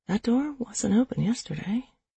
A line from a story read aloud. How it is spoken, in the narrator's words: I whispered to myself